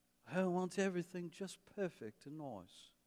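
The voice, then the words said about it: Put-on English accent. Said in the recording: “I just keep doing this English accent.”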